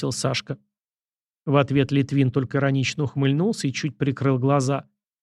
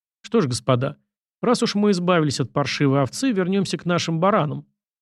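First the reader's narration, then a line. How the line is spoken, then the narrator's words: Loud. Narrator (Russian): громко произнес Сашка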